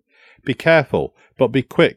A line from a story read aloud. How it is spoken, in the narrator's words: I simply said